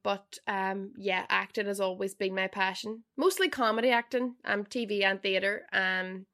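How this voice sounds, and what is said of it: Strong Derry Northern Irish accent. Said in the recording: “still such a strong Derry accent... I can't understand a word she's saying, because I'm still so Derry”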